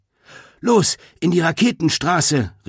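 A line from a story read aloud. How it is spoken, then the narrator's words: Called out. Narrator (German): rief Greta den anderen zu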